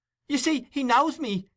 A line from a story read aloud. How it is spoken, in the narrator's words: cried Nancy, appealing to the bystanders